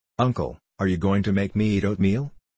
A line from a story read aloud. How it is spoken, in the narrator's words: asked Rose, in a tragic tone